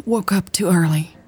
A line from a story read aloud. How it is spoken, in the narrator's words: Mary sighed